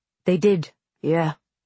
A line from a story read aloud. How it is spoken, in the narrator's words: Naylor said coldly